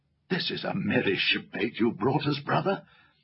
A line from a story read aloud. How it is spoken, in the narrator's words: whispered Caspian to Edmund with a chuckle